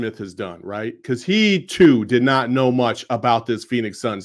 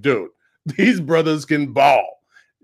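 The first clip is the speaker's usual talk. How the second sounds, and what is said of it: Imitates another person's voice. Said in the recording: “That is a pretty good impression.”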